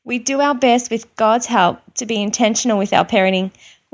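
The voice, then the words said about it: Australian accent. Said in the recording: “She has a good Australian accent.”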